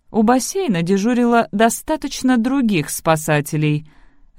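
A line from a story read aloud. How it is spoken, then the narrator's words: Even, level tone. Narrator (Russian): ровным тоном произнесла мисс Купер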